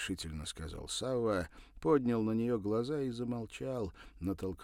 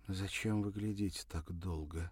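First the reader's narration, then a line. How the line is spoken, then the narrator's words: Quiet question. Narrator (Russian): тихо спросила она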